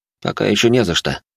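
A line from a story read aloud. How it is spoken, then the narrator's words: Plain. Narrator (Russian): ответил собеседник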